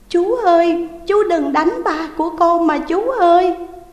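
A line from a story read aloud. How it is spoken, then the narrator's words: Child crying. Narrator (Vietnamese): con bé khóc lóc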